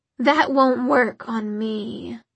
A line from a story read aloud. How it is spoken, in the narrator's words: said the demon in a bored voice